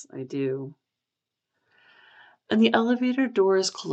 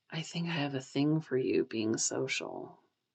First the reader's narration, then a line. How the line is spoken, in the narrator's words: Pisong whispers into Kawi's ear